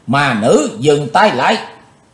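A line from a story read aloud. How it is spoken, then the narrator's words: Sudden shout. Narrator (Vietnamese): Chí Tôn chợt quát lên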